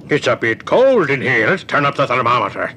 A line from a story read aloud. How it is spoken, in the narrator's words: said his father merrily